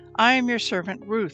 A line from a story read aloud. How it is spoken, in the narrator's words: she replied